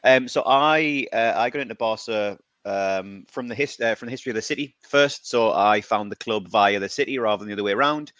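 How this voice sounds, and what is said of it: British accent. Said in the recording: “I'm from the UK, as you can probably tell very quickly from my accent.”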